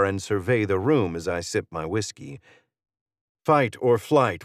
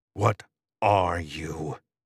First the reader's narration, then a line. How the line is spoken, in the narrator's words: I hiss